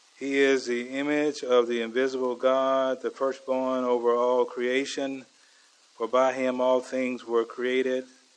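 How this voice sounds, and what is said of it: Slow-talking Southern US accent. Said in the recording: “I'm one of those slow-talking southern boys from Georgia”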